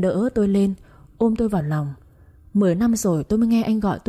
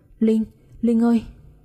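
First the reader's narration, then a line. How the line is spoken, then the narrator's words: Very loud scream. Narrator (Vietnamese): tiếng hét của Tân rất lớn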